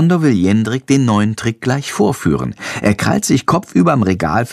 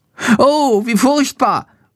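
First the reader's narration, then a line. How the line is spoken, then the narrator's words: Horrified cry. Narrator (German): ruft er entsetzt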